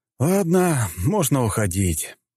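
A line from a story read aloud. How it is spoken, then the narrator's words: Vexed sigh. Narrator (Russian): раздосадованно вздохнул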